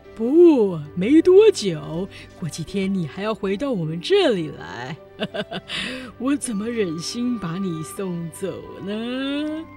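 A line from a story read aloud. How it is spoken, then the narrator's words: Sly sneering. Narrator (Chinese): 费琴一脸奸笑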